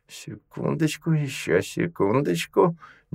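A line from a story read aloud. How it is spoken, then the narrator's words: Impatient muttering woman. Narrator (Russian): нетерпеливо бормотала женщина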